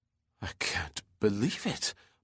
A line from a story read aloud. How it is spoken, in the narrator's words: muttered Ramsdell incredulously